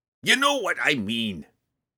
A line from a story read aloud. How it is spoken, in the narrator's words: he growled